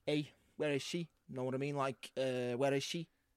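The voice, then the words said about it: Put-on Scouse accent. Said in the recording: “my impression ... So you're Scouse?”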